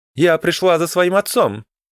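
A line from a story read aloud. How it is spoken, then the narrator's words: Shouted. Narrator (Russian): крикнула Имрата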